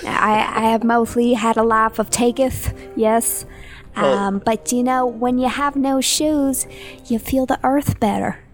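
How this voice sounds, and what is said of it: Character voice. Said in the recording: “I love your character voice.”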